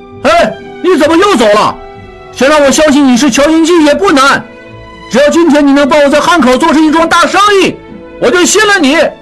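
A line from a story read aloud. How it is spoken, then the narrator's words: Calling out. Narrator (Chinese): 拉斯普汀喊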